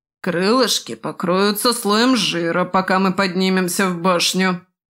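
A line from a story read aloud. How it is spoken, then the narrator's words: Grumbling. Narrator (Russian): проворчал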